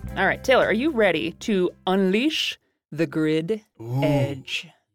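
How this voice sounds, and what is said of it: Dramatic epic movie trailer voice. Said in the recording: “I did my best movie voice there ... the next epic spy movie”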